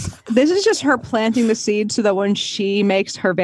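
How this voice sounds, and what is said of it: Usual voice. Nothing is said of it.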